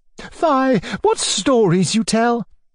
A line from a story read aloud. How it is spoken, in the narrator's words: cried Anfisa Petrovna